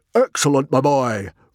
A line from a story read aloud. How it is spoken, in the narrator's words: roared Stoic